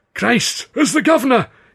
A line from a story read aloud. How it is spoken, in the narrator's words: gasped, lapsing into his Scots accent